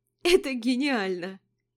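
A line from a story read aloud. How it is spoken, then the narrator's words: Laughing. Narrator (Russian): продолжала хохотать Вика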